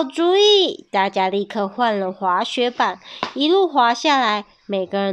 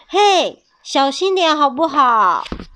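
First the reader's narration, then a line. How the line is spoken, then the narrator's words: Angry yell. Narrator (Chinese): 爱管事气得大叫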